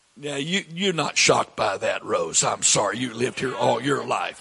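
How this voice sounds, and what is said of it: Southern American accent. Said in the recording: “somebody with this accent ... everybody with a southern accent's ignorant”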